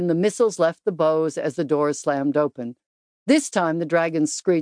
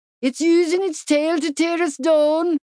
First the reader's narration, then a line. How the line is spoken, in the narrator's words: a soldier yelled